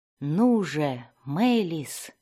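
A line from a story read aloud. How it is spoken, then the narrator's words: Impatient whisper. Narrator (Russian): прошептал Зак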